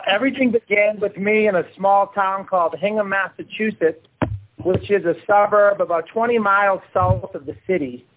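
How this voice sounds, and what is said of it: Boston accent. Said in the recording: “I stem from Boston, as you might be able to tell from my accent.”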